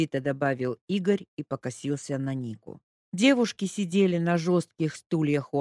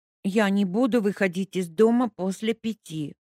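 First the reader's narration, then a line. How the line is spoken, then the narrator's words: Grumbled under breath. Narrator (Russian): пробурчала под нос Леська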